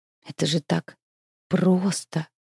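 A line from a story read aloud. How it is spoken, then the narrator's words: Muttered. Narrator (Russian): пробормотал смерть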